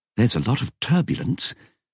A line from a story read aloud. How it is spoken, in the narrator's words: he muttered, concentrating